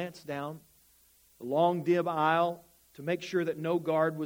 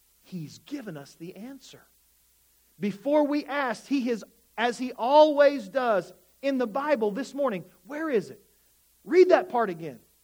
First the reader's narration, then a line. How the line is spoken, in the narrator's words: said excitedly